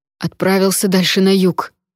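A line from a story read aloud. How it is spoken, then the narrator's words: Breathed out. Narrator (Russian): выдохнул Фишер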